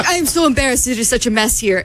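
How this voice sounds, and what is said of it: Put-on Argentinian accent. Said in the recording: “you guys love her Argentinian accent ... I'll stop doing my accent.”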